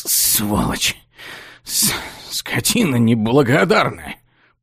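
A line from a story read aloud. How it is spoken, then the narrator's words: Hoarse wheeze. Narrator (Russian): прохрипел человек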